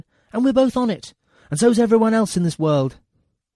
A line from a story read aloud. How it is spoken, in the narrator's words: shouted